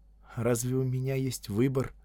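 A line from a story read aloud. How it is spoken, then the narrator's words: Sad, smiling. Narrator (Russian): Она грустно улыбнулась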